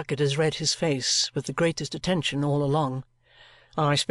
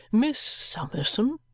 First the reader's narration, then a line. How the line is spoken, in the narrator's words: Jarndyce, in a troubled voice, repeats